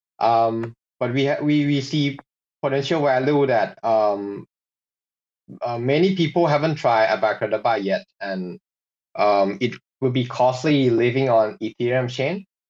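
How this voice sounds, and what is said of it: Asian accent in English. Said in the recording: “We are based in Asia. You can guess on my accent first of all.”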